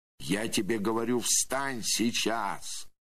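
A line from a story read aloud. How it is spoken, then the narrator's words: Loud shout. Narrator (Russian): Громко закричал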